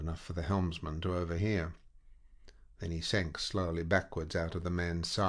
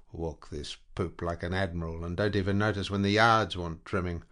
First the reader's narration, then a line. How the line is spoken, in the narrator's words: Captain John's, growling to himself